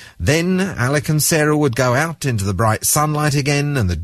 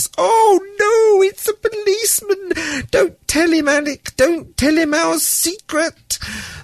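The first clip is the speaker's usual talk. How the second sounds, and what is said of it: Little silly voice. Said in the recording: “in a little silly voice”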